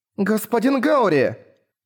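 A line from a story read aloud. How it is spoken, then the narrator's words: Shouted. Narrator (Russian): закричала Сильфиль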